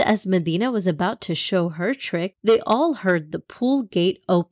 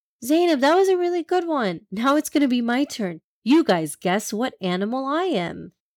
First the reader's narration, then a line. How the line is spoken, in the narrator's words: She exclaimed